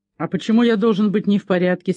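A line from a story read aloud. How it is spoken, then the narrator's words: Angry. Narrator (Russian): сердито ответил Чейз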